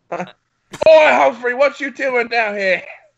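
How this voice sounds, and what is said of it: Exaggerated put-on accent. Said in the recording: “Offensive accents!”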